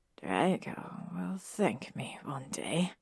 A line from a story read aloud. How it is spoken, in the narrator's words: he said softly